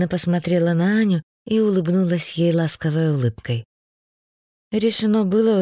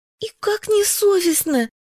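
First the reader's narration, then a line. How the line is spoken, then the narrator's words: Exclaimed. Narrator (Russian): воскликнула Катенька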